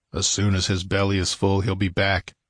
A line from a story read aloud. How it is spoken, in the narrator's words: muttered Conan